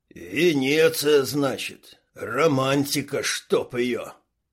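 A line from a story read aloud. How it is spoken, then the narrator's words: Grumbling. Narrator (Russian): проворчал Квас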